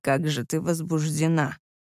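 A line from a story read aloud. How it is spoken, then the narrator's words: Whisper. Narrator (Russian): прошептал он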